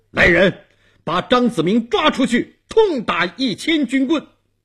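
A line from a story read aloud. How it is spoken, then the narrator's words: Stern shout. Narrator (Chinese): 东王厉声喊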